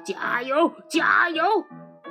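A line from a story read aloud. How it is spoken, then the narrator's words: Repeated shouting. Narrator (Chinese): 胖子伯吉斯嘴里不停地喊着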